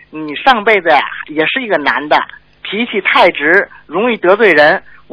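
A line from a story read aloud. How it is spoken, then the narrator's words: Smiling. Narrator (Chinese): 师傅您对我笑笑，对我说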